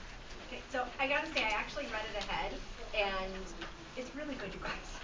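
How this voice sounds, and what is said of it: Usual voice. Nothing is said of it.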